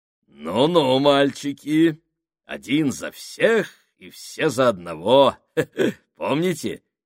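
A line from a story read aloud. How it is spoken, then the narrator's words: Giggling. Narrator (Russian): хихикнул он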